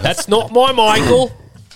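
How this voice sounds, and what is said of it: Put-on Australian accent. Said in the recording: “My Australian accent was on point today. ... Normally it's not good. I feel like I really delivered on that.”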